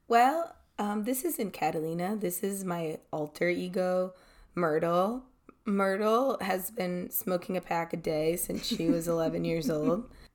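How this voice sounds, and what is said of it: Hoarse, cracking lost voice. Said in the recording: “she has a hard time hitting some high and low notes ... lost your voice? You're not sick at all ... my voice is kind of cracking a little bit, especially when I talk too much ... sound is like a great. Boy going through puberty ... I lost my voice”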